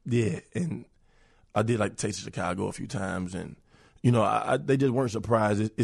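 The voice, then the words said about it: Messed-up, strained speaking voice. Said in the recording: “my voice is so messed up right now ... as soon as I get my voice back”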